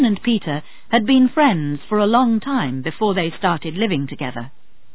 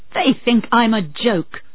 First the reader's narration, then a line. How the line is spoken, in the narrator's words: she said angrily